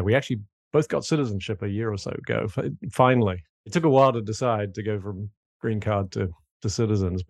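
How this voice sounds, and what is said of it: British accent. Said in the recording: “as you can probably tell from my accent, not originally from South Carolina ... grew up and went to school in the UK”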